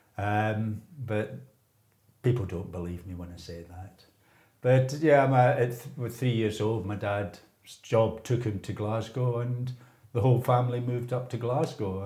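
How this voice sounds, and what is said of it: Glaswegian Scottish accent. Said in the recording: “in spite of my accent, I wasn't born and bred in Glasgow”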